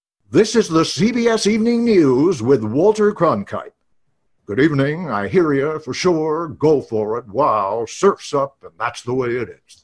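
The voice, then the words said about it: Walter Cronkite impression. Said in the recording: “my famous Walter Cronkite impression”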